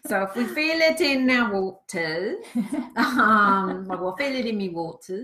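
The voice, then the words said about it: Put-on regional English accent. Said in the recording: “Great accent there”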